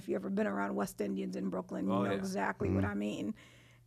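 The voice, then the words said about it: Thick Trinidadian Brooklyn accent. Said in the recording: “I have this thick Trinidadian Brooklyn accent.”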